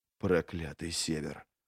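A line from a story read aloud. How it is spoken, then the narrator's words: Whispered curse. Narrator (Russian): шепотом выругался Логин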